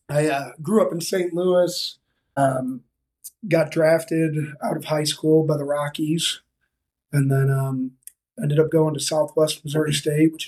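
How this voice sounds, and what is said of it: Rough, unwell-sounding voice. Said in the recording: “Sorry for the voice. Just getting over a little something though.”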